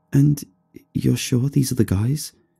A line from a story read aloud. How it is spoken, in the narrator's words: she asked quietly